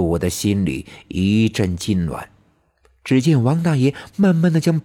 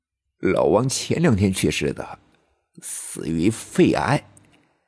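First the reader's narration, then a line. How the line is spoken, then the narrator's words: Old man sighing, complaining. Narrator (Chinese): 李大爷唉声叹气的诉苦道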